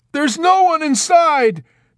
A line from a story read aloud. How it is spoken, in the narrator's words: Dunbar yelled out at him unexpectedly